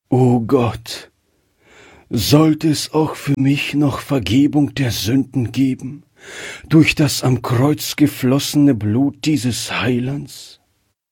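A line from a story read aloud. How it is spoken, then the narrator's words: Heartfelt sigh. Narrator (German): dieser Seufzer aus seinem Herzen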